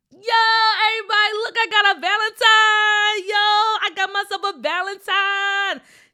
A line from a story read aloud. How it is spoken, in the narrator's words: TJ yelled to his friends